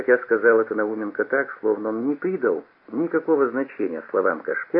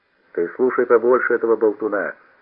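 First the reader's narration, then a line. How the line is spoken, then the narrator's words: Angry. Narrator (Russian): сказал сердито Науменко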